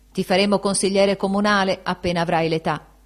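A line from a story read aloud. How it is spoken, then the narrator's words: Playfully patronizing exclamation. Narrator (Italian): Benedetto esclamò con tono scherzoso di protezione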